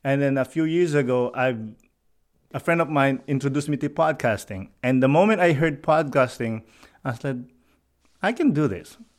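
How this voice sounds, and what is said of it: Thick non-native accent. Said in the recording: “I have a thick accent”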